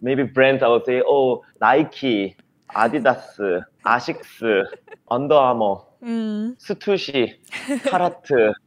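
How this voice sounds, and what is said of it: Konglish, Korean-accented English pronunciation. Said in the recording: “how do I pronounce the teaser in a Konglish accent? ... like how Koreans would say it ... pronouncing it in that”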